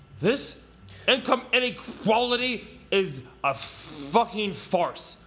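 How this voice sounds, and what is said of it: Bernie Sanders impression. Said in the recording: “Bernie Sanders is like ... I'd love to do an impression. He's my favorite impression.”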